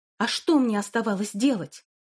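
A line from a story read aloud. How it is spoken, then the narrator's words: Sharper than intended. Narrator (Russian): Голос Тары прозвучал более резко, чем она ожидала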